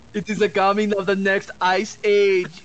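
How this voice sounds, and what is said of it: Poor imitation of another person's accent. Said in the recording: “I can't do his accent, I'm terrible with it.”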